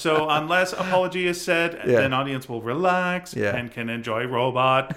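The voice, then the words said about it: Robot voice. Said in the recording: “my robot voice ... your robot voice”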